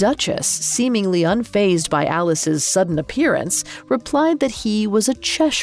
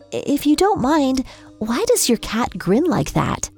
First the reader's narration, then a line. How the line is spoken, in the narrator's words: asked timidly